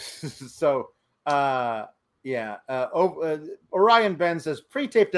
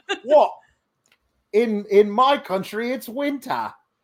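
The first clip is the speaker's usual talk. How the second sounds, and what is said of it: Terrible put-on accent. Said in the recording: “that's a terrible accent.”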